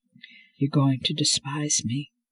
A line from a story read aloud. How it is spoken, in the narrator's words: he murmured